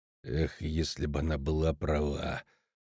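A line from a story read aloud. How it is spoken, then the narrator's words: Muttering. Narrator (Russian): пробормотал корчмарь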